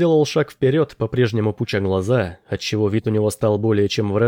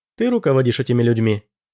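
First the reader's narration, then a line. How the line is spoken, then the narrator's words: Plain. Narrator (Russian): сказала она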